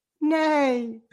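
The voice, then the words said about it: Camp horse neigh impression. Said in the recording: “The campest horse I think I've ever heard in my life, that impression.”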